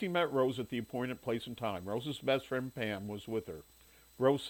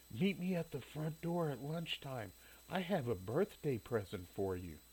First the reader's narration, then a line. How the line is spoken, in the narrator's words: Rose whispered in his ear